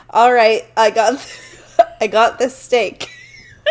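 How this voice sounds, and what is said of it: Puts on an accent. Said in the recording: “diving into my accent”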